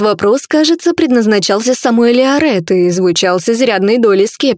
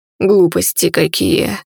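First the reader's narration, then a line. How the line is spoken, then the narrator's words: Velvety charming baritone snort. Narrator (Russian): фыркнул бархатистый чарующий баритон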